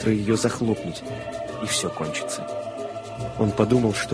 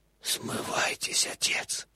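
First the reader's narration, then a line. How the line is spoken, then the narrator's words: Barely audible whisper in ear. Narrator (Russian): Еле слышный голос прошептал по-английски в ухо священника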